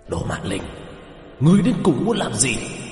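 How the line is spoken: Cold hiss. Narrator (Vietnamese): xà yêu lạnh lùng rít lên

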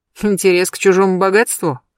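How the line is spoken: Skeptical snort. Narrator (Russian): хмыкнул Берсеньев

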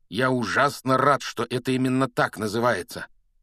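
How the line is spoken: Strained growl. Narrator (Russian): прорычал Рон

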